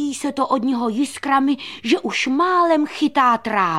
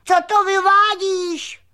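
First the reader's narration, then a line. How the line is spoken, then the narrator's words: Shouted. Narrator (Czech): křikl Křemílek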